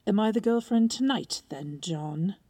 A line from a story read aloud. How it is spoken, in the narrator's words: spat